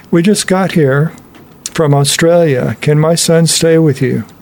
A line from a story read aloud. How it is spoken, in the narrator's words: a English lady, with an English accent, said